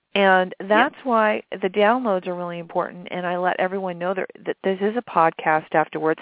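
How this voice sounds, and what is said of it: Slightly raspy voice. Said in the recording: “my voice is a little raspy. It's that flu thing kicking again. ... It sounds sexy”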